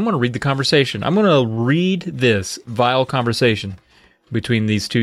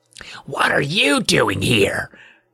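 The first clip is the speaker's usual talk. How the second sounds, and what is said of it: Hoarse, cold character voice. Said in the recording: “Her voice was hoarse. Let me take it back with a hoarse voice.”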